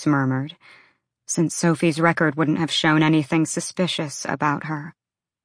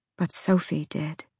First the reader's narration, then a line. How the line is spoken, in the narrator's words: Bryce said quietly